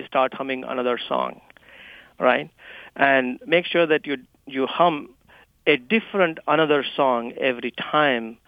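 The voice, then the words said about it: Indian accent. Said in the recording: “my Indian accent”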